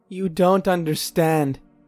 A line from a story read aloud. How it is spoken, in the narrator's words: she sobbed